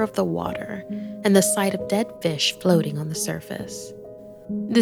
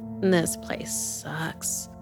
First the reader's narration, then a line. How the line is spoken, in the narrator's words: she muttered